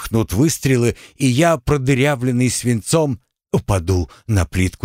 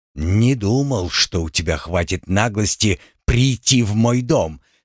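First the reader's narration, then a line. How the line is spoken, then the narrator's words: Through clenched teeth. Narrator (Russian): сообщил мне сквозь зубы Ряжский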